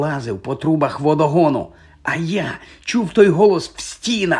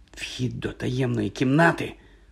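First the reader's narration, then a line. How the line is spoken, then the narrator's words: Hoarse rasp. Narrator (Ukrainian): прохрипів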